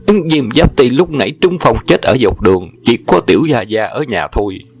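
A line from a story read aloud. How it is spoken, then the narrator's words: Terrified chorus shouting. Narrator (Vietnamese): Bọn sai dịch sợ hãi, đồng thanh la lên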